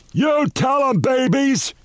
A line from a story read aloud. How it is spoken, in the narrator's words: He shouted down